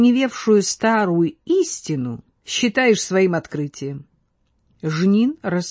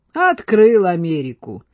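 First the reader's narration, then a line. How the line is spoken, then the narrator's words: Laughing. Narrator (Russian): засмеялся Брохвич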